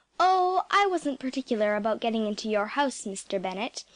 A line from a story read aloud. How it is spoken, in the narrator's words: I said calmly